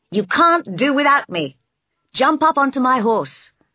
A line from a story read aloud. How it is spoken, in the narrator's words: he shouted